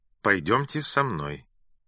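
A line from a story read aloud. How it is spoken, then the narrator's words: Dry. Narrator (Russian): сухо сказал он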